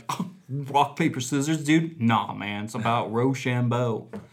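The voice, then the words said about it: Frat boy voice turning southern. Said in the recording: “I don't know what that accent is. ... You went frat boy, then you went southern.”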